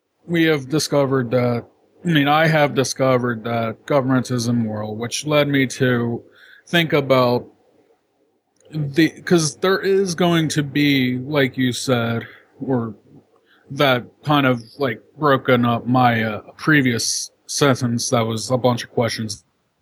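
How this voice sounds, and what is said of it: Tired-sounding voice. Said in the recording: “You sound kind of tired.”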